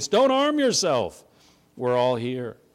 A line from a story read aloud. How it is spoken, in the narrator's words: Paul cries out with a loud voice